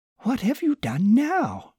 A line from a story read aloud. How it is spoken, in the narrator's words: exclaimed Margaret